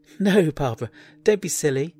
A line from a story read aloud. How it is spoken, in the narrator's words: she giggled